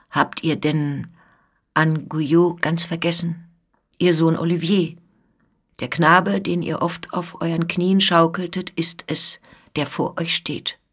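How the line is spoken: Dull, hollow voice. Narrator (German): sprach er mit dumpfer Stimme

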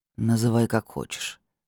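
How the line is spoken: Calm. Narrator (Russian): спокойно сказал Богомол

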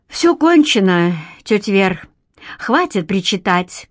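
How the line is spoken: Weary, pained tone. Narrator (Russian): Устало поморщилась, наконец, Лариса Юрьевна

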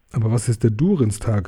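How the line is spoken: Plain. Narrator (German): fragte Elrond

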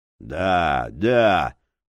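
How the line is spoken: Grumbling. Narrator (Russian): проворчал лиходей

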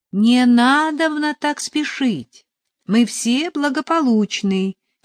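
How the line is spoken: Shouted through a door. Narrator (Russian): крикнул в дверь отец Модест

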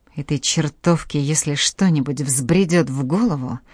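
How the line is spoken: Muttered, breaking off. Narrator (Russian): пробормотала она и оборвала фразу

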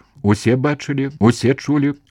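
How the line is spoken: Loud. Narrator (Belarusian): гучна сказаў Вячка

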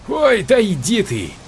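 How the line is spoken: Laughing, good-natured. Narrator (Russian): С хохотом, но не со зла

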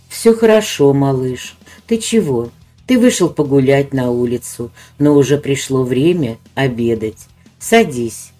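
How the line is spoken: Gentle smiling mother. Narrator (Russian): Ласково улыбнулась мама

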